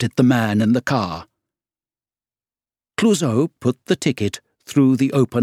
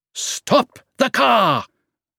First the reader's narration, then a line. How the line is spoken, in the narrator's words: shouted Clouseau